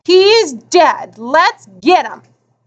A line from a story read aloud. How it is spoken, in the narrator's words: He snarled